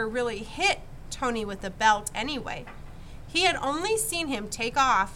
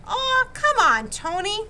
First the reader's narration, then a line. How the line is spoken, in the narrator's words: he pleaded